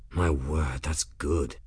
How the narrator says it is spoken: Benedict breathed

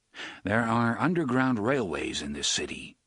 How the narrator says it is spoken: said

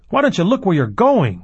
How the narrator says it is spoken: He might have shouted

